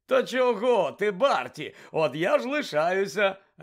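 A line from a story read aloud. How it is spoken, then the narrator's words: Joyful exclamation. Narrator (Ukrainian): радісно вигукнув Бекмен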